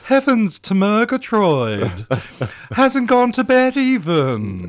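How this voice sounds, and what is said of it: Cartoon character voice, Snagglepuss. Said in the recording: “How do you like my Snagglepuss? ... Oh, it's spot on.”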